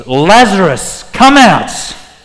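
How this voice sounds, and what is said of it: Loud shouted call. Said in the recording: “cries out in this loud voice”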